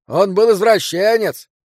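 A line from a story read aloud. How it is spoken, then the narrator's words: Distant shout. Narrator (Russian): крикнул кто-то из глубины бара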